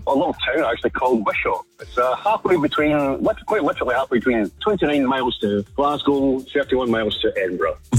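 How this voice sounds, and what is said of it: Scottish accent. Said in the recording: “I take from your accent, you're from north of the border. ... What part of Scotland are you from?”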